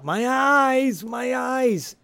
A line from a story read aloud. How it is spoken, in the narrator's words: JT yells out